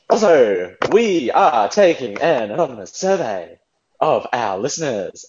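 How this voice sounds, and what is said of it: William Shatner impression. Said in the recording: “doing that voice ... To be Shatner”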